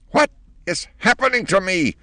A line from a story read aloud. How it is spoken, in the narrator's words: shrieked the old lady under the sink